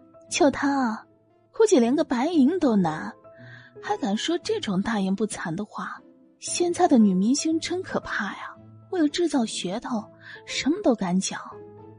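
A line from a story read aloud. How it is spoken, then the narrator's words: Giggling whisper. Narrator (Chinese): 就连蒙鲁鲁也瞬间咯咯的笑个不停，对杨苏文悄声道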